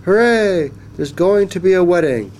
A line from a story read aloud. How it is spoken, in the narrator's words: they all cried